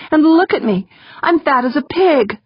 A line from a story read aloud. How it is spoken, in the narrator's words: pleaded